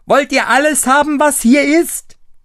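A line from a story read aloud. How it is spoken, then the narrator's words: Screaming with full force. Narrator (German): schrie aber gleich aus Leibeskräften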